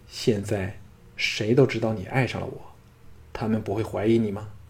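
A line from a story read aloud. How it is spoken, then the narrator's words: Plain. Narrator (Chinese): 雅夫人道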